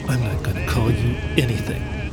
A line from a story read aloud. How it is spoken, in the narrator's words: I muttered